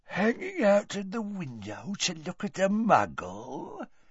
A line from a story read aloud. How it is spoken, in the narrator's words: said Gaunt quietly